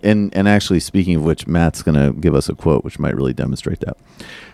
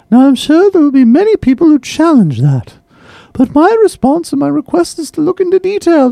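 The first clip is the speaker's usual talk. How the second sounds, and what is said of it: Exaggerated British woman's accent. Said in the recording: “I'm just going to do this in a ridiculous British woman's accent”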